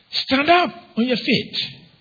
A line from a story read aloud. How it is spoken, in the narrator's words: called out